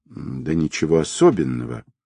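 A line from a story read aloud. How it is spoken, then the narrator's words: Evasive mutter. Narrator (Russian): пробормотал мужчина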